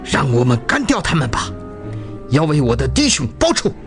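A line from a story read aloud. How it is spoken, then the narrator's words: Through gritted teeth. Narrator (Chinese): 孟和连长咬牙切齿地说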